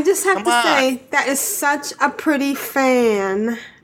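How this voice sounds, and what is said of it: Usual voice. Nothing is said of it.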